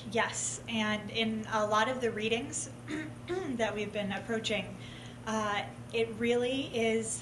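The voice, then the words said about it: Hoarse, failing voice. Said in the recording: “I'm losing my voice all of a sudden”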